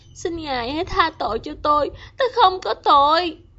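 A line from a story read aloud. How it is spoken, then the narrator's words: Pleading. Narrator (Vietnamese): van xin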